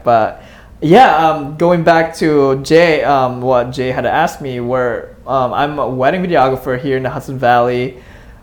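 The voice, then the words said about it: Speaks English with an accent. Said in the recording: “my accent”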